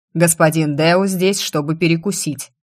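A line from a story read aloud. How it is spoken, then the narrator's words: Loud bark. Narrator (Russian): гаркнул он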